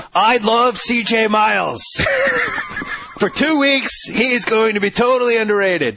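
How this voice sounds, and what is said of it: Imitates another person's voice. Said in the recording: “your impression of me”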